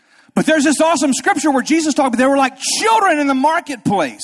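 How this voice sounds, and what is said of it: Usual voice. Nothing is said of it.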